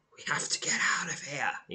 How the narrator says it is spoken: he whispers

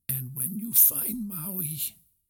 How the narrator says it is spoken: Gramma Tala said, her voice gaining strength

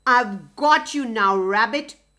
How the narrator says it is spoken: growled

